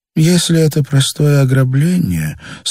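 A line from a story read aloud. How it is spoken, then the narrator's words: Bored voice. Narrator (Russian): сказал Варю скучным голосом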